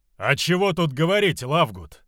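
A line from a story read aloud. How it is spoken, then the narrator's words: Booming voice. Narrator (Russian): прогремел Волгавсми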